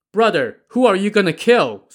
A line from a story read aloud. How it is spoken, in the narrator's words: Song Jiang called out to Liu Tang